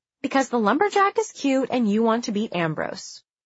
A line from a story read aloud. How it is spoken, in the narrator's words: she replied cheerfully